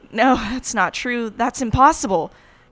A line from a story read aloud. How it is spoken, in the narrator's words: the TV cried out